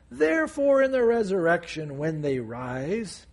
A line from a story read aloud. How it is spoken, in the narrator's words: mockingly